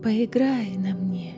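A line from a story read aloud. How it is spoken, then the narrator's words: Whisper, harp. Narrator (Russian): прошептала арфа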